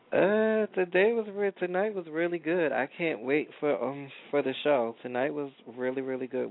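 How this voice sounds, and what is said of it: Tired, slightly scratchy voice. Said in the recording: “I'm tired. My voice is going to be a little scratchy just getting in here from rehearsal.”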